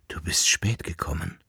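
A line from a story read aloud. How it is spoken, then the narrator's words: Whisper. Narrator (German): flüsterte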